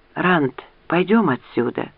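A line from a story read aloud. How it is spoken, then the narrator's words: Whispered. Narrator (Russian): прошептала Лианна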